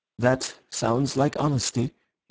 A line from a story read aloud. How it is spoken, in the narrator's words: he said at last in a civil voice